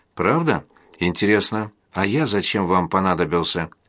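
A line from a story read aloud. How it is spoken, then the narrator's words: Whispered. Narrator (Russian): Александр прошептал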